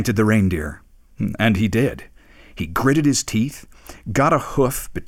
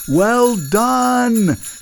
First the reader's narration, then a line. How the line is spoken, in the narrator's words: shouted the professor